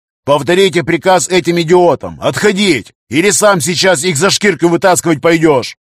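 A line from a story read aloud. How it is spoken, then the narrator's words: Yelling. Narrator (Russian): Тол заорал коммуникатор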